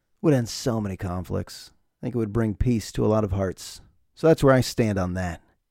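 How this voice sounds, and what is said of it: Deliberately serious voice. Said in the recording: “I'm going to stay serious. I'm going to stay in that voice. That's the serious voice.”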